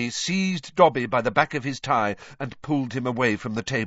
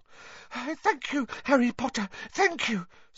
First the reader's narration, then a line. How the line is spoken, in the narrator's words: said Dobby breathlessly